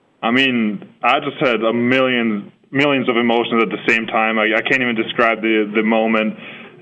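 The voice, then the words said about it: Austrian accent. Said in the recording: “immediately your accent comes through, and I know you are from Austria”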